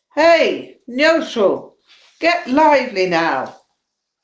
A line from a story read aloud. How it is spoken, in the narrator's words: perceiving his dull state of mind, called out